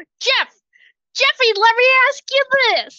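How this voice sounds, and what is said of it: Yelling loudly. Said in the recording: “why are you yelling”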